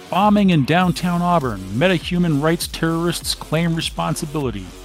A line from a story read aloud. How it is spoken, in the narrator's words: The sprawling Chiron exclaims